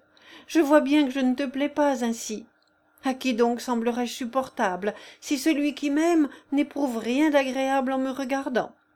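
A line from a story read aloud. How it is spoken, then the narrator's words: Exclaiming. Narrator (French): s'écria-t-elle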